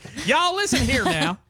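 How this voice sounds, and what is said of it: Put-on Texan drawl. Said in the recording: “And his accent. ... He was from the Texas side of the Gulf.”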